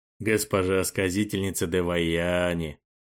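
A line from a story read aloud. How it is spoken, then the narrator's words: Dreamy, slightly hoarse. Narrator (Russian): мечтательно проговорил Каримбхай, и в голос его вкралась хрипотца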